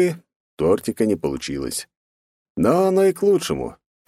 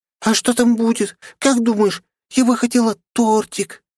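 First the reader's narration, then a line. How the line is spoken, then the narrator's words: Squeaky voice. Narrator (Russian): пискнула она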